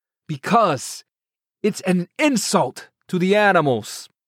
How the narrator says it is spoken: the imam said, raising his voice

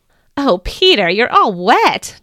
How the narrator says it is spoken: Jesus laughed

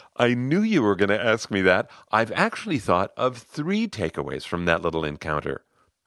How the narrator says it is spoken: He laughed, saying

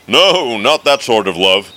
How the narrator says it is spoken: Goo said, chuckling

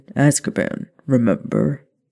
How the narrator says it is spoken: Sirius said coolly

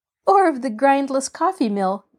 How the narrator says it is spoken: giggled Marjorie

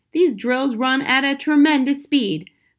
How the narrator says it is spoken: the father said

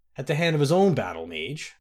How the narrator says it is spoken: chuckled the king

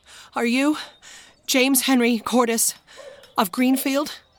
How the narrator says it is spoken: panted Henry

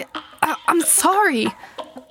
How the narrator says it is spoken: I gasped

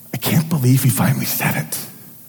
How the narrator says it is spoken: gasp

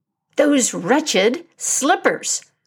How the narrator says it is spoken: cried Abu

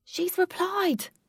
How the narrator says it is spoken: shouted Alec

